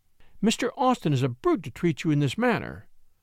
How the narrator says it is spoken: she cried indignantly

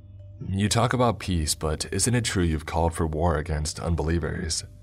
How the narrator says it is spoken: He chuckled quietly

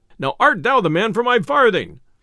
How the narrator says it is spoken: cried the messenger

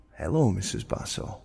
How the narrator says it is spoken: I calmly replied

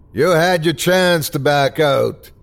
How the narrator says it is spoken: screamed the bartender

